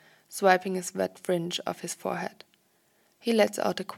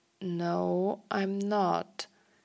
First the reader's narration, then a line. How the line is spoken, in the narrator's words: he says slowly